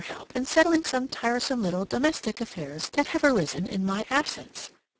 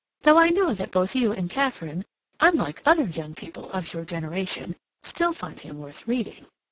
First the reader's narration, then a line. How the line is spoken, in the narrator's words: Hilbury continued with a little laugh